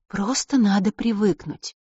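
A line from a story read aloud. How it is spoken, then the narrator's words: Gentle coaxing. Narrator (Russian): мягко увещевает Селена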